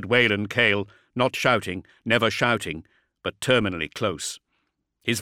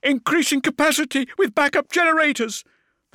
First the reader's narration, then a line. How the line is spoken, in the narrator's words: the serf screamed back